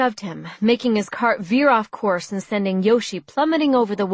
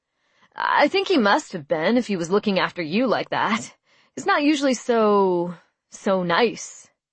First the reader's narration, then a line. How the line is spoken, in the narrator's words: I laughed